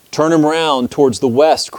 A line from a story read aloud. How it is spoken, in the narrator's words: cried the crowd